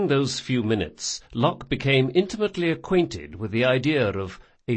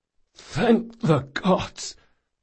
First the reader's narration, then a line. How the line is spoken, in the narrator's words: croaked Locke